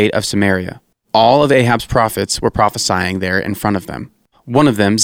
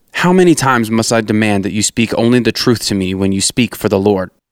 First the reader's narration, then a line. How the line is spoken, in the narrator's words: the king replied sharply